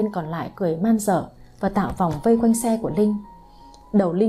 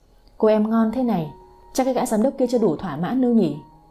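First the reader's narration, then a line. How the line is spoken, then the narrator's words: Menacing growl. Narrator (Vietnamese): Vinh Sẹo gằn giọng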